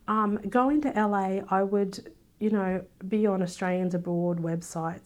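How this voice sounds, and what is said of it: Strong Australian accent. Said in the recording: “you've got a pretty strong Australian accent”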